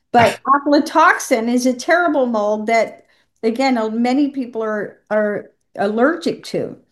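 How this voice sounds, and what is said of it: Southern American accent. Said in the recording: “my American accent, my Southern”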